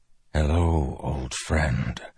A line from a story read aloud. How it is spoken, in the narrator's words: Dalinar whispered